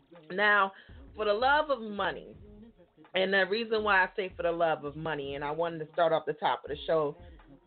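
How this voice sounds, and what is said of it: Slightly raspy voice. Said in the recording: “I got my tea in here because I'm a little bit raspy.”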